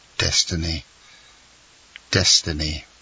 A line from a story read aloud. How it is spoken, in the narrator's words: murmured the abbé